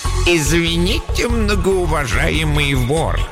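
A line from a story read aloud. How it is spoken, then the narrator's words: Mocking voice. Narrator (Russian): Голос хозяина звучал насмешливо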